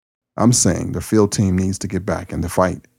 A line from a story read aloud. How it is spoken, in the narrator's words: Stahl said